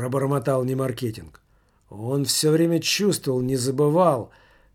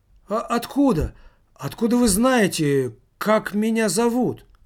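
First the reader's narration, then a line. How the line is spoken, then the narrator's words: Teenager exclaiming. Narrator (Russian): воскликнул подросток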